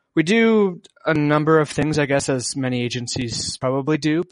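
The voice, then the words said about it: Canadian accent. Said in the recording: “this is not a typical British accent. Yes, you are from Canada”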